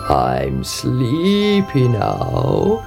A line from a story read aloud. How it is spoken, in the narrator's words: he croaked